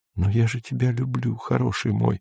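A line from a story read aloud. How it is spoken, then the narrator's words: Desperate whisper. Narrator (Russian): шептала Сельма с отчаянием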